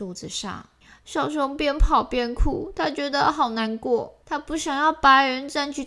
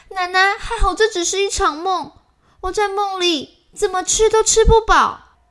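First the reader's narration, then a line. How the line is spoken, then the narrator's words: Happy loud shout. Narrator (Chinese): 小熊开心的大喊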